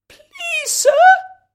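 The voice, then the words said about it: Timid, hesitant voice. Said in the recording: “in a timid voice”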